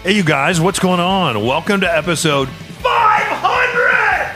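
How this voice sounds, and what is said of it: Screaming, very loud excited voice. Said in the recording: “Why am I screaming?”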